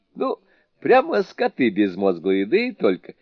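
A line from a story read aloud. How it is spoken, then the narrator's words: Laughing. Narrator (Russian): смеясь, сказал Суню-кун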